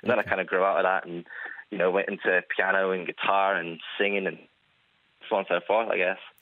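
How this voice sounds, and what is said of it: Mixed, partly non-Irish accent. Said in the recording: “we detect a bit of non-Irish accent going on there ... my accent kind of got lost in translation, a bit mixed up”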